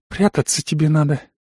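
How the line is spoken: Sad exhale. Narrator (Russian): грустно выдыхает жена

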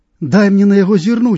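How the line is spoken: Young man exclaiming. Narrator (Belarusian): усклікнуў малады чалавек

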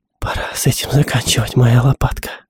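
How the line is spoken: Whisper. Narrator (Russian): прошептала Джоди

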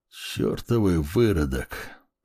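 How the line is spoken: Hissing. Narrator (Russian): прошипел Эриль

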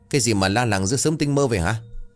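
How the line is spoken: Loud shouting. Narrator (Vietnamese): Lão Chánh thì quát inh ỏi

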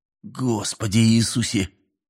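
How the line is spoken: Muttered. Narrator (Russian): пробормотал Мэлори

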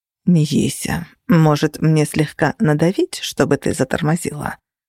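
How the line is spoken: Menacing tone. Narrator (Russian): Нехорошим голосом заметил Феникс

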